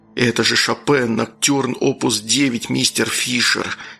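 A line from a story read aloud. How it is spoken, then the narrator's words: Inspired whisper, inner voice. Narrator (Russian): вдохновенно прошептал у меня Пит в голове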